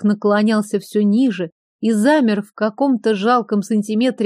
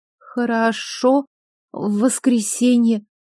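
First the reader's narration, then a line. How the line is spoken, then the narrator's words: Barely audible whisper. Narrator (Russian): прошептала еле слышно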